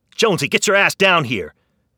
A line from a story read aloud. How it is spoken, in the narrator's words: Fisher shouted over the chaos